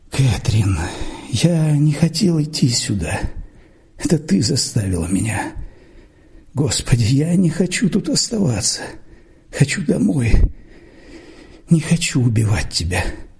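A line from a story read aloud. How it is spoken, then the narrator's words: Sleepy mumbling. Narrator (Russian): сонно бормотал Джордж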